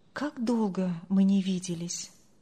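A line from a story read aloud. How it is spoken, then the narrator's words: Silent inner sigh. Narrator (Russian): вздохнул про себя Андрей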